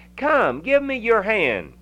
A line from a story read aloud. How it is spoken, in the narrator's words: cried the merry world